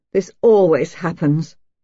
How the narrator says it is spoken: she said in a harsh, unhappy voice

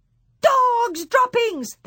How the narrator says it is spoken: they shouted

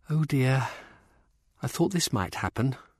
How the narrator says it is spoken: Rosalind sighed

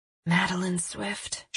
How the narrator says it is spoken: murmured

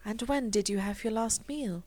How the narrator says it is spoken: she asked softly

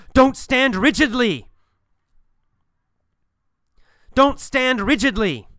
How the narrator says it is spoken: He yells

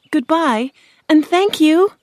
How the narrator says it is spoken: Dorothy cried

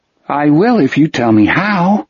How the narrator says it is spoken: he said, his voice rising and falling unevenly

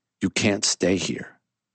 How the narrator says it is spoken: Carter said, his voice lowering

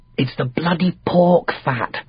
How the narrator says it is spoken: whispered

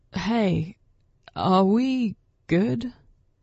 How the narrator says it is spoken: Damien asked her, his voice worried

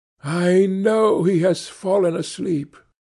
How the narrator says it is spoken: she said to herself, sighing

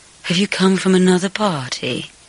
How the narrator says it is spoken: she breathed

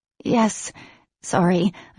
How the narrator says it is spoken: managed to croak

